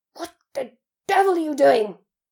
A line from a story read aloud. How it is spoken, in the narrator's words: said Uncle Vernon through gritted teeth